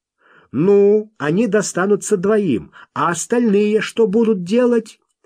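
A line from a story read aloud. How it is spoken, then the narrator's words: New voice shouting. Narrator (Russian): новый голос выкрикнул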